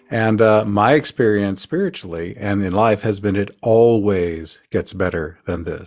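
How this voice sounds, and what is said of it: Oklahoma accent. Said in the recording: “Forgive the accent, I grew up in Oklahoma.”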